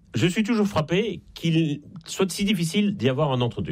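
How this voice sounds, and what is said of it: Slight Belgian French accent. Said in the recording (French): “ça s'entend un peu d'ailleurs à mon accent. Je suis en Belgique et je ne suis pas né en France”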